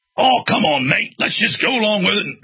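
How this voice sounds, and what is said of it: Attempted Australian, sounds English. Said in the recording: “It's more of an English accent. I need to work on my Australian accent.”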